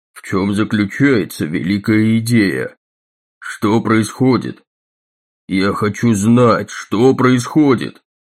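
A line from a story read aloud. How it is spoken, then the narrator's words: Level, even voice. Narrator (Russian): Дагни проговорила ровным голосом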